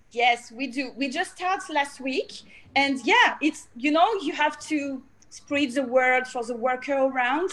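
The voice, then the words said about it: Speaks with a noticeable foreign accent. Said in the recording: “I love your accent.”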